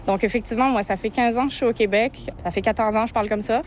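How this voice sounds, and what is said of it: Québécois accent with French inflections. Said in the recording (French): “tu as un accent québécois évident ... Les Québécois, ils entendent encore des petites inflexions françaises dans ma façon de parler”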